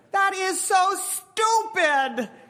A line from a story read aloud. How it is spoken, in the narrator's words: the woman yells